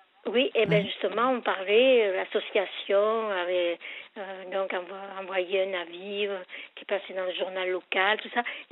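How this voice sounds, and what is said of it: French accent mixing Marseille and local. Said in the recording (French): “excusez-moi mon accent ... il adora votre accent ... Il est mélangé, là, entre Marseille et ici.”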